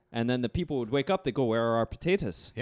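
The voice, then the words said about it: Put-on Irish accent. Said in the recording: “always with an Irish accent.”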